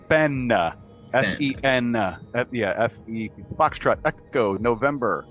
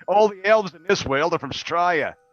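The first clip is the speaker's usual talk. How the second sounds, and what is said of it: Put-on Australian accent. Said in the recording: “I thought you came from a land down under ... There's my accent for the stream ... I'll just talk like that for the rest of the stream”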